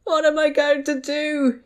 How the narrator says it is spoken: He wailed

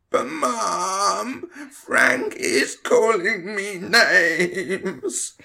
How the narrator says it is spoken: Tom whined

